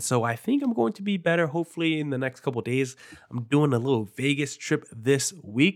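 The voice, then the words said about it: Nasal, congested voice. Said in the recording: “I sound nasally. ... a little bit of a cold, very runny nose”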